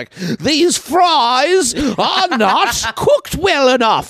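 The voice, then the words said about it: Put-on English accent. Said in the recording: “That's my English accent.”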